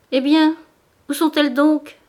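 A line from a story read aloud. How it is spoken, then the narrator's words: Exclamation. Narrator (French): s'écria Madame Bourdelais lorsqu'elle se dégagea de la cohue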